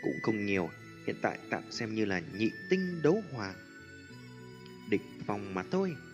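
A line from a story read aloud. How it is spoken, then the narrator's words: Light laugh. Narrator (Vietnamese): Tiêu Viêm cười nhẹ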